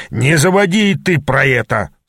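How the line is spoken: Growling. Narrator (Russian): зарычал Ас

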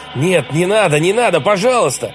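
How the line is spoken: Shouting on waking. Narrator (Russian): Он очнулся от сна и закричал

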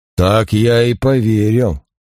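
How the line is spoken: Grumbled. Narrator (Russian): проворчал инспектор

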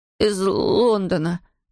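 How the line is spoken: Forced out, strained. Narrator (Russian): выдавил Эйден

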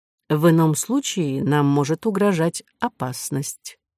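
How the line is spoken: Quiet. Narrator (Russian): тихо сказал второй из незаметных вельмож

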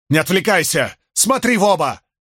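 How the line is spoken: Shout. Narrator (Russian): крикнул Мэтью

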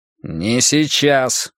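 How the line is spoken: Through gritted teeth. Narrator (Russian): процедил Брус

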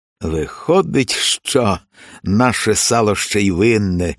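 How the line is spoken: Raven sighing. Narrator (Ukrainian): зітхнув ворон

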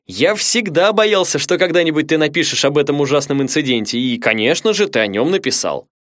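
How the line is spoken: Joyful yell. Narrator (Russian): он радостно завопил

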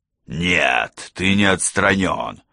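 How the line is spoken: Bark. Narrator (Russian): рявкнула Келли

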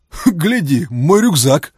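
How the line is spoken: Chuckling. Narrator (Russian): хохотнул Фома

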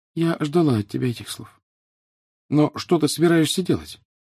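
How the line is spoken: Sad. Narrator (Russian): Гермиона лишь печально сказала

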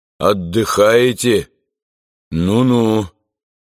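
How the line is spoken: Trembling question. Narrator (Russian): подрагивающим голосом спросил

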